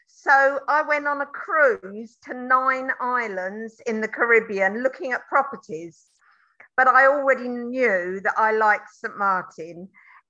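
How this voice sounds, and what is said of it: London English accent. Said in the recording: “you can hear from the accent, I'm a London girl.”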